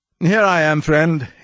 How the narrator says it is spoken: he said with his funny, inane laugh

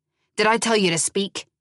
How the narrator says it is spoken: he snapped

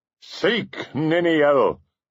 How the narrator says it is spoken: cried Túrin

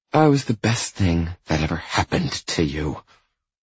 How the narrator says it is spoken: she hisses, with unrestrained arrogance

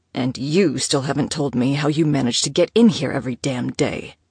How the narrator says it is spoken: growled

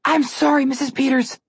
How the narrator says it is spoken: Connor whimpered

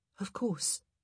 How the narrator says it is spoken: Kate murmured

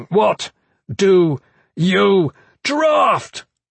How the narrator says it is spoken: screamed

